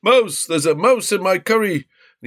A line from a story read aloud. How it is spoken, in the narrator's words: a man with a scar down his cheek shouted